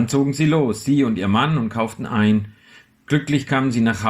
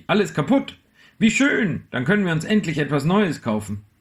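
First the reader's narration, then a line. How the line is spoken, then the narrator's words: Called out. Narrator (German): rief sie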